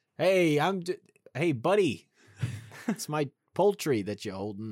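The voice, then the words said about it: Put-on heavy New York Italian accent. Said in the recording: “someone with a very heavy New York accent ... sounds like an Italian man from New York”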